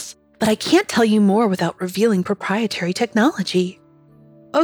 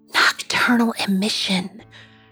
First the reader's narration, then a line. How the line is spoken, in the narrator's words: she says in a stage whisper